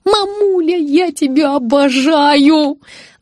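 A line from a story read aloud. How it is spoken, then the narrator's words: Yelling. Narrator (Russian): завопила я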